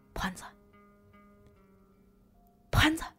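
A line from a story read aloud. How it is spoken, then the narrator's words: Soft call. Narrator (Chinese): 我轻声喊了一下他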